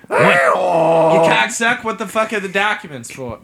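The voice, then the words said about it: Put-on Basque accent. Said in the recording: “Why am I speaking in Basque accent?”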